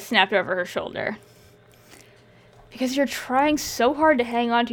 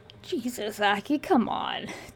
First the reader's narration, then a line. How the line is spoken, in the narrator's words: Thea grumbled